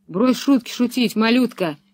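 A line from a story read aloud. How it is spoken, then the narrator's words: Angry, menacing big man. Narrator (Russian): зло проговорил громила Карл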